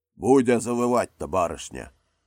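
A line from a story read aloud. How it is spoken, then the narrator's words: Deep bass voice. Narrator (Russian): басом сказали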